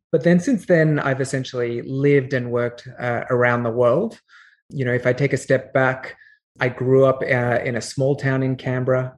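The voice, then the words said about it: Australian accent. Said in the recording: “I love a good Australian accent ... I'm Australian by origin, as you can tell from my accent.”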